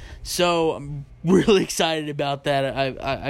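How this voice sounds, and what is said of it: Usual voice. Nothing is said of it.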